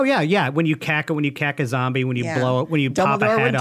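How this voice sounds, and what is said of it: Usual voice. Nothing is said of it.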